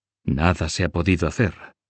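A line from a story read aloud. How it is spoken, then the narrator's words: Low voice. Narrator (Spanish): dijo este en voz baja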